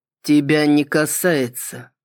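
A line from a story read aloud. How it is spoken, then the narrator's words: Even tone. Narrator (Russian): ровным тоном ответил Кристиан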